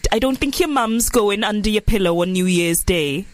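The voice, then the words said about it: Put-on Welsh accent. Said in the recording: “I can't do a Welsh accent. Why did I even try? ... That's good. ... Really good.”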